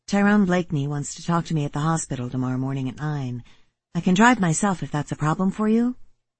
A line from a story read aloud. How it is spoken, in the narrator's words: I said quickly